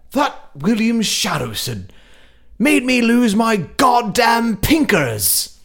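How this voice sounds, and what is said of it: Put-on Scottish accent. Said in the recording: “my go-to accent is Scottish”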